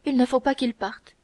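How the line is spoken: Loses composure, cries out. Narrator (French): s'écria Milady, oubliant sa présence d'esprit accoutumée

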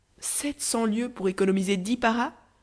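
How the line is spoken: Exclaimed. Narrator (French): s'écria le chef de police

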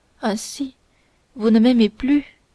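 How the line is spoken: Slow, sad woman. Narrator (French): dit lentement et tristement la procureuse

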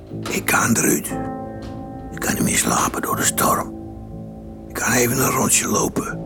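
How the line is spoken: Whispering. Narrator (Dutch): fluisterde zijn vrouw toe

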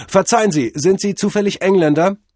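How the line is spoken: Calling out. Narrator (German): Cordell rief

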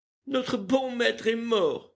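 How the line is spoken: Sobbing. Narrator (French): dit Berthe en sanglotant

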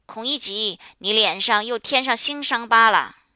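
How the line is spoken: Mocking laughing call. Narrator (Chinese): 所有喝酒的人便都看着他笑，有的叫道

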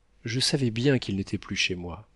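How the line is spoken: Plain. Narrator (French): dit-elle

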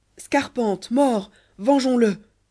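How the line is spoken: Bandit chief crying out. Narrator (French): s'écria le chef de ses bandits

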